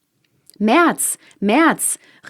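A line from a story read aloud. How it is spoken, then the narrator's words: Calling after someone. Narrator (German): rief der vierte ihm nach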